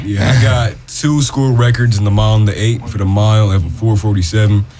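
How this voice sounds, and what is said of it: Deep voice. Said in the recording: “you got a deep voice.”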